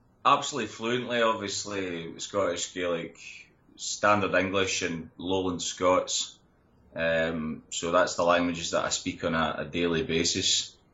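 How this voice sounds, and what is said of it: Standard English with Scottish accent. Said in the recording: “I'm obviously just speaking standard English with a Scottish accent”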